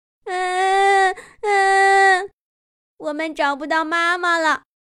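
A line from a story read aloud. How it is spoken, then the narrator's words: Crying tadpoles. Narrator (Chinese): 小蝌蚪们哭着说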